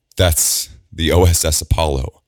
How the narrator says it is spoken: Alondra stammers, her jaw shaking with pain

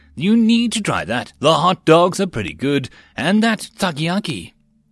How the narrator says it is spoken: Mills exclaimed

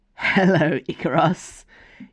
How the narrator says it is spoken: giggled one of the taller women

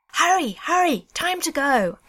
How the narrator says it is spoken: yelled

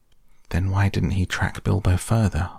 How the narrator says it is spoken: asked Frodo

